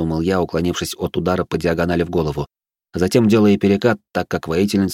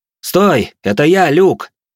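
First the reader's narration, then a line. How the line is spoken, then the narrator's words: Loud, urgent. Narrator (Russian): Поняв, что я могу так нелепо умереть на заднем дворе своего собственного поместья, громко произнес я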